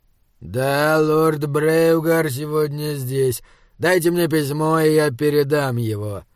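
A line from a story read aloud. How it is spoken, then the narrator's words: Through gritted teeth. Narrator (Russian): процедил сержант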